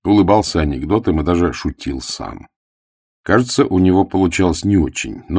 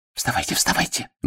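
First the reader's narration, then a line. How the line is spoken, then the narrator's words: Whispered. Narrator (Russian): шепнула Зиночка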